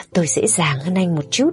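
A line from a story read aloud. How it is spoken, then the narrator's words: Cheerful, smirking. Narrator (Vietnamese): Người lang thang đó khẽ nhếch miệng cười, nói một cách rất vui vẻ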